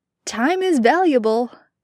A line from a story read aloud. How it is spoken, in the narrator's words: he'd laughed